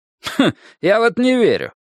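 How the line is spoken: Snort. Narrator (Russian): фыркнул Вуди

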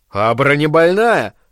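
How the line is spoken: Snappish retort. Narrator (Russian): огрызнулся он

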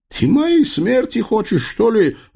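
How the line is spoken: Howling wail. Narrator (Russian): взвыл Дамулло

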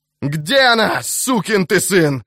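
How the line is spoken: Yelling. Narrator (Russian): заорал он

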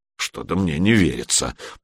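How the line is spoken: Old man muttering. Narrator (Russian): пробормотал Мертвый Дед

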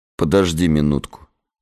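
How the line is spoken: Calm. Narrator (Russian): спокойно сказал Гессер

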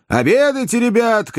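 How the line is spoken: Cooks shouting. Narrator (Russian): кричали повара

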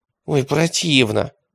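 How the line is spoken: Groaning. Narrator (Russian): простонал Радищев

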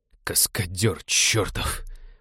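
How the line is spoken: Groan. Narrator (Russian): простонал Винни

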